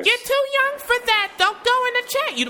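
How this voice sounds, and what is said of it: Higher-register impression of mother. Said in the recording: “When I can breathe better, I can do a better impression of my mother. ... The higher register, yes.”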